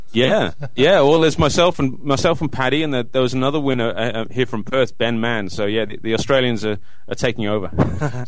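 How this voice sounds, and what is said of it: Mixed English and Australian accent. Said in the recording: “I'm not picking up an English accent with you. Where there's a hint of something else there as well ... this weird sort of mixture of an accent”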